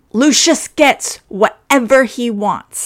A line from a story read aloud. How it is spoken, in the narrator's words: Ed shouted